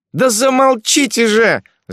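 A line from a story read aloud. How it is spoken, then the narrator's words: Shout. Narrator (Russian): закричала она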